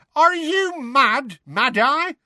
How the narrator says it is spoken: Tonks screamed from the front

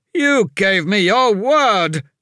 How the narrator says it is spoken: his lordship shouted

